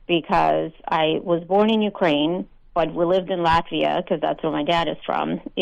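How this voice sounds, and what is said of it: Slight foreign accent. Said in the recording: “I hear a little bit of an accent.”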